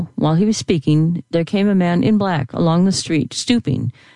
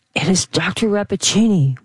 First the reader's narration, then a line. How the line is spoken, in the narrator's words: whispered the professor